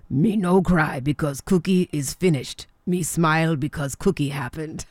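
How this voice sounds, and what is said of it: Cookie Monster impression. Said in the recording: “That's my best impression of Cookie Monster”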